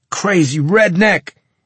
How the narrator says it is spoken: he moaned from the floor

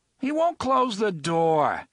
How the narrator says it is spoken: Eddie yelled at Balazar

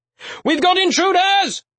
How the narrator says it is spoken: he shouted as loud as he could, hoping the noise would reach the guards inside

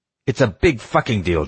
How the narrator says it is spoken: Diego yelled

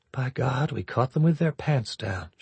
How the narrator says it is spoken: she murmured

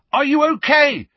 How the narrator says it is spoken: he yelled

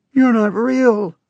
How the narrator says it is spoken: I shouted

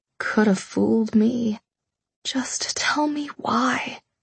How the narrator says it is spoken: I whispered, the air rattling in my lungs

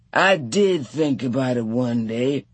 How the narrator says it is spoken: Hicks said dreamily

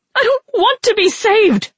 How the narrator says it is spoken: Rin shrieked

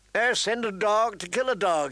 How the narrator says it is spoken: he exclaimed

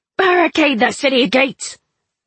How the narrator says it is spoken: Tan Sung roared

